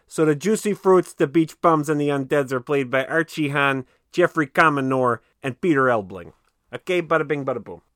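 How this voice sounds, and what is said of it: Put-on Chicago accent. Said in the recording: “I got a Chicago accent now.”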